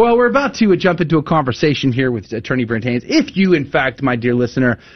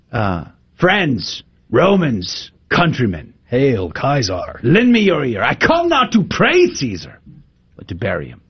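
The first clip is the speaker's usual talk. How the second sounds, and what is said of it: Theatrical put-on accent. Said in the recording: “Interesting accent. ... Was that Charl- a Roman accent? ... You, Roman accent. I have no idea what that accent was.”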